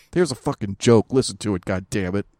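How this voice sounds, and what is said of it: Angry imitation of another person's voice. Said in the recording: “That was me impersonating you. ... You got to heighten it a little. Get a little more angry.”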